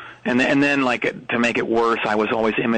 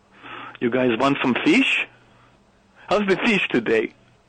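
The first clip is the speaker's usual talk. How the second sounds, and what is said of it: Exaggerated mock Norwegian accent. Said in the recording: “imitating the Norwegian accent ... This is your imitation of the people of Norway ... super, super insulting and inaccurate”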